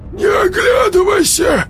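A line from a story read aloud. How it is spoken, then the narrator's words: Hoarse rasp. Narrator (Russian): прохрипел Володька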